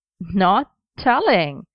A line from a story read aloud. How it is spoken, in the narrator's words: Merlin repeated with a small laugh